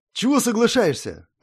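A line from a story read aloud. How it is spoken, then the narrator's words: Irritated coach. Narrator (Russian): раздраженно сказал мой тренер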